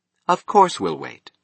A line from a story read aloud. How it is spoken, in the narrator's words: she said firmly